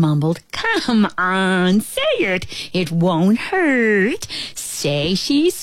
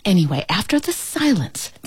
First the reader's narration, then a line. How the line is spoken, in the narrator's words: the ant whispered